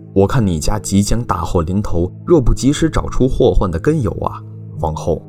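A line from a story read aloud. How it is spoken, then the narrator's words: Cold sneer. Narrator (Chinese): 乞丐冷冷一笑道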